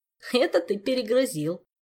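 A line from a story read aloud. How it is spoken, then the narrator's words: Giggling, more cheerful now. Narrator (Russian): хихикнул Жак уже веселее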